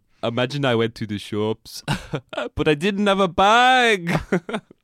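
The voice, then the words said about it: Unconvincing put-on German accent. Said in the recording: “That's my German accent. ... It doesn't sound German.”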